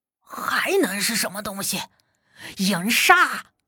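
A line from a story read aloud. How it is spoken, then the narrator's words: Panting, breathless question. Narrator (Chinese): 黑子背着武笛，呼哧带喘的问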